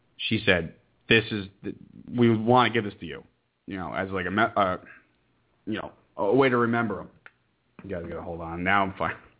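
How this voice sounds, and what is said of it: Choked up, emotional voice. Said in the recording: “getting choked up”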